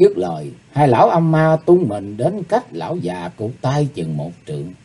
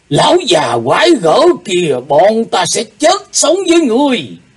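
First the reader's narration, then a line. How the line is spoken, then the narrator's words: Two old men, hissing hatred. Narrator (Vietnamese): hai lão âm ma rít lên qua tia mắt hận thù, cùng lên tiếng nói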